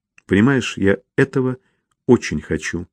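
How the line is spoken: Calm, confident female voice. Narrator (Russian): спокойно и уверенно сказала она

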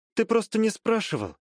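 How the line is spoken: Slightly sad, smiling. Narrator (Russian): немного грустно улыбнулась девушка

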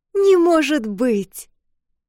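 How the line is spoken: Very loud exclamation. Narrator (Russian): воскликнул так громко, что сестры подскочили на месте

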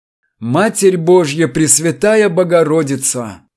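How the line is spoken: Moaning. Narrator (Russian): простонал Чертослепов

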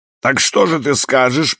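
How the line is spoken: Booming drone. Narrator (Russian): прогудел мистер Рейси

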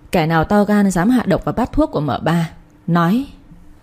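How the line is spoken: Harsh, menacing voice. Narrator (Vietnamese): cậu ba quắc mắt gằn giọng

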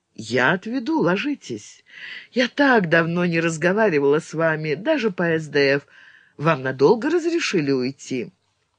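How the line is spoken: Ringing carefree girlish laugh. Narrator (Russian): Родис рассмеялась по девичьи звонко и беззаботно

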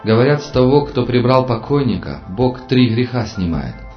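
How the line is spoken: Plain. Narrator (Russian): сказал Толя

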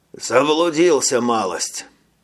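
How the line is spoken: Tired voice. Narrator (Russian): сказал Веллингтон усталым голосом

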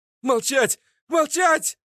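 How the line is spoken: Shrieking. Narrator (Russian): завизжал Своркин

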